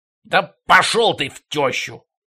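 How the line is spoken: Snapping back. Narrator (Russian): огрызнулся шорник обух

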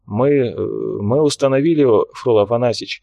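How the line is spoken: Hesitant. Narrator (Russian): произнес он несколько неуверенно

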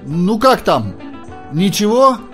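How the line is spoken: Shouting. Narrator (Russian): крикнул Джордж

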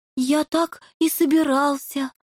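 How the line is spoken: Joyful reply. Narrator (Russian): радостно отозвался лемах

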